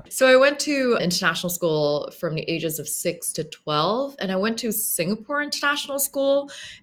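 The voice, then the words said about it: Slight American-sounding accent. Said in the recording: “you speak with virtually no accent, and if anything, I would say an American accent”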